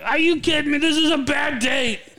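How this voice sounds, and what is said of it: Poor impression of another person's voice. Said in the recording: “Terrible Joe Pesci impression ... Wasn't a very good impersonation. ... I'm just trying to impersonate my brother-in-law”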